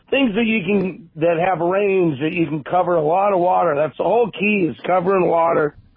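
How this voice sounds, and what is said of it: Strained voice about to give out. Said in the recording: “my voice is going to give out here pretty quick”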